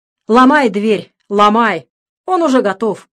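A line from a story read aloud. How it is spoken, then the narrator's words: Urgent shouting. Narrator (Russian): Сообразив, что произошло, закричал хирург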